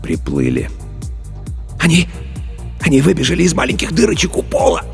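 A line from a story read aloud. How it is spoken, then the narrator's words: Passionate whisper. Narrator (Russian): Страстно зашептал Старлей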